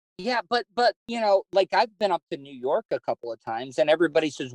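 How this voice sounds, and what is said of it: Southern US accent, slow speech. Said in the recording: “why do you talk so slow? Because I am as Southern as you can get ... you have a very thick accent ... You do have a little bit of my daughter's boyfriend's Southern”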